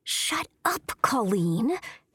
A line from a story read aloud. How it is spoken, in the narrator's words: hissed Ashley Hawthorne